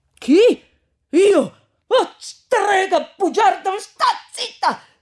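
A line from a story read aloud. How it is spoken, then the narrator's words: Shouting. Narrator (Italian): gridò Renzo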